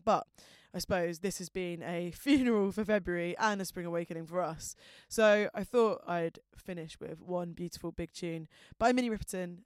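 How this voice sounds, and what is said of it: South London accent, very fast speech. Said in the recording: “I've got a filthy South London accent and speak at the speed of light”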